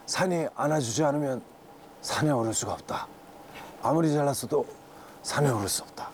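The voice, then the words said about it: Imitates another person's voice. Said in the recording (Korean): “성대모사 ... 어몽기 선생님의 명언 있지 않습니까?”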